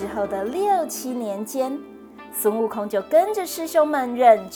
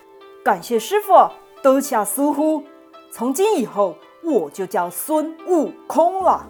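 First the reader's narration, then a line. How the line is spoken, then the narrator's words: Joyful loud shout. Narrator (Chinese): 美猴王当场笑逐颜开，高声大叫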